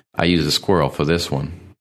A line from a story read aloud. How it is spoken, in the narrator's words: he said